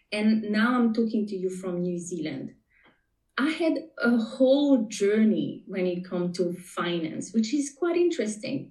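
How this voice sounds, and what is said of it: Slight French Tahitian accent. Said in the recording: “you may be able to pick up a little bit of an accent. I am from Tahiti, born and raised. So my first language is French.”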